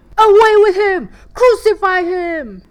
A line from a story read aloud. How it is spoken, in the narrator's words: they cried out